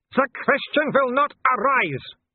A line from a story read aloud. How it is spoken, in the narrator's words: Wolf bellowed